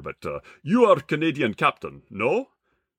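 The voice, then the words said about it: Put-on local Minsk accent. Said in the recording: “at the President Hotel in Minsk ... a random local gentleman ... pardon the accent here”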